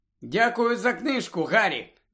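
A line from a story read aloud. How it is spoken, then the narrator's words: Happy. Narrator (Ukrainian): радісно сказала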